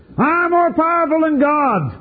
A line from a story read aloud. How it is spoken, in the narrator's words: screamed out the voice from the boy